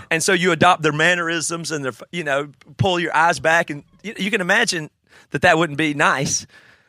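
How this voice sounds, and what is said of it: Southern American accent. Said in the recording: “I've always had a southern accent, and maybe I ham it up”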